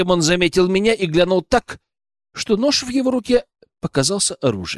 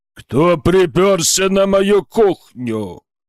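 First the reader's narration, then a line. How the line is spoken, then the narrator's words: Deafening thunderous bass bark. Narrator (Russian): Оглушающим громоподобным басом рявкнул шеф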